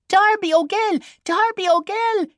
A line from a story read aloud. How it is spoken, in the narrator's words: screamed the rollicking chorus